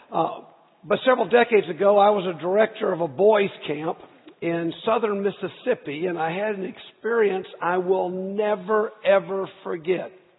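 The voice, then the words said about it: Slightly scratchy voice. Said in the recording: “forgive my voice. It's just a little scratchy.”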